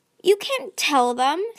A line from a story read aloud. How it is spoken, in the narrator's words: Tsunami shouted